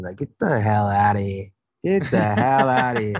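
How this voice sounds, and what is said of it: Obnoxious put-on New York accent. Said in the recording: “I love doing a New York accent, just like, but like super like obnoxious and like just kind of, it's like borderline hood almost”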